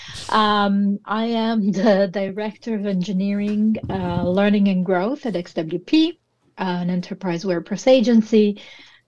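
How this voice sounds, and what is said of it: Italian accent. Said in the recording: “As you can tell from my accent, I'm very Italian.”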